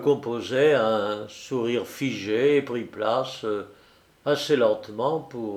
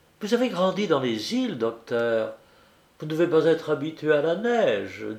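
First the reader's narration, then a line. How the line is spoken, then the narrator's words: Playful teasing tone. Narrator (French): dit-elle d'un ton badin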